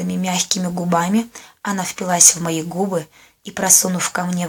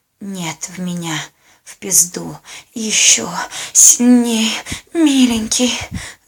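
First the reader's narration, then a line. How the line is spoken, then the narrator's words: Passionate breathless whisper. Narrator (Russian): зашептала в порыве страсти, продолжая испытывать продолжительный оргазм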